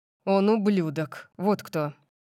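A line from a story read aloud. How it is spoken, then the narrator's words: Fierce growl. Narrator (Russian): Прорычал он, свирепость его тона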